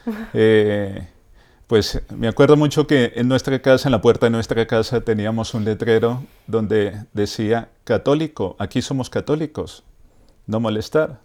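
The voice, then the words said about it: Colombian Spanish accent. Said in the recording (Spanish): “¿Ese acento de dónde viene? ... Yo soy de Bogotá, Colombia.”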